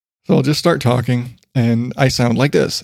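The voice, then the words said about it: Deep, lower-pitched, slightly raspy voice. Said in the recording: “deep voice is that my normal speaking voice is down here. It's a little more raspy ... more down tuned”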